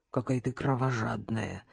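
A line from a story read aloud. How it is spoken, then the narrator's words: Sigh. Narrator (Russian): вздохнула Надежда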